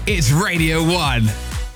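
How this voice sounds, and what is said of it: Dramatic TV announcer voiceover impression. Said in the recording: “your X Factor impression ... Peter Dixon, who's the guy who does the actual X Factor voice”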